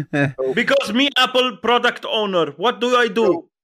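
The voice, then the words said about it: Lebanese accent. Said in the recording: “every time you talk about Apple, you have to do it in a accent? ... Accent is my Lebanese accent.”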